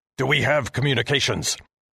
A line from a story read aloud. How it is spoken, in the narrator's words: Commander Heston shouted at me